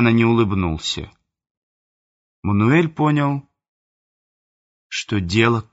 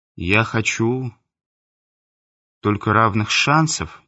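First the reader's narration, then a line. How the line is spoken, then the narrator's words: Quiet. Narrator (Russian): негромко сказал Мануэль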